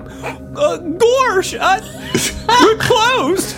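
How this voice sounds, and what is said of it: Goofy cartoonish character voice. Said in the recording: “I gotta do a voice for this guy... this dude is goofy as fuck... Hit him with the fucking goofy... Came in with the gorsh”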